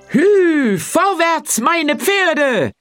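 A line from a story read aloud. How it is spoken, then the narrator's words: Boastful calling out. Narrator (German): rief er prahlerisch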